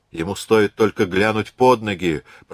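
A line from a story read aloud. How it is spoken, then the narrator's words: Muttering. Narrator (Russian): пробурчал Теодорос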